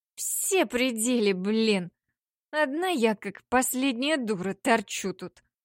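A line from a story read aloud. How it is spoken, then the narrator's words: Drunken hateful grumble. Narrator (Russian): проворчала пьяная Лина с ненавистью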